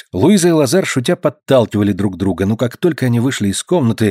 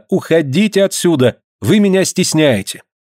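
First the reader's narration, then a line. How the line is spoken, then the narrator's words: Cheerful shouting. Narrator (Russian): Полина весело им кричала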